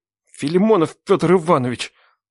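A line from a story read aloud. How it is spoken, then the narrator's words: Muttered through teeth. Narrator (Russian): процедил мужик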